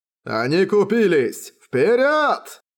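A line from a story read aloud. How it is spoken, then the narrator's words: Giant's shout. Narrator (Russian): закричал гигант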